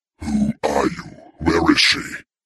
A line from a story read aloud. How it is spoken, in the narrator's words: he said, his voice rumbling across the courtyard